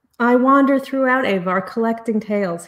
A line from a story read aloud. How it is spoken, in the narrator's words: he said